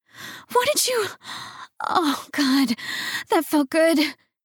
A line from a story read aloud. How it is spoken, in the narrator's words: she moaned